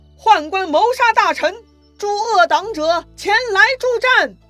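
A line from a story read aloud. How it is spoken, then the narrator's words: Furious loud shout. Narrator (Chinese): 袁绍气坏了，他高声大喊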